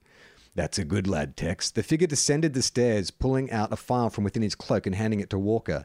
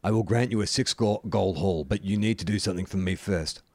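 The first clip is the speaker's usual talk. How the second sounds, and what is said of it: Grumbling suspiciously deep character voice. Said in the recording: “the figure grumbled in a suspiciously deep voice”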